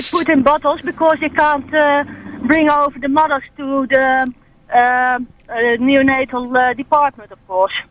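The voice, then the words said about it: Dutch accent. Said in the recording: “I'm detecting an accent ... No, I'm from Holland.”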